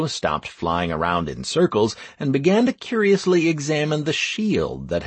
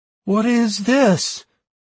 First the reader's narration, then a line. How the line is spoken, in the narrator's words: the totem asked in a slightly scared voice